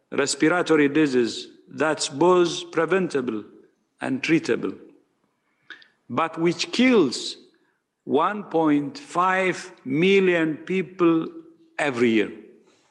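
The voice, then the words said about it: Noticeable foreign accent. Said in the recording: “I heard his accent there. I had a hard time with it there for a moment.”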